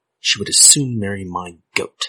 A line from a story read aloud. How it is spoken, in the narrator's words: howled his uncle